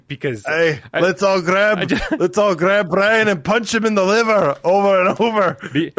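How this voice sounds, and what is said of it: Poor put-on Scottish accent. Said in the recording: “doing a terrible Scottish accent”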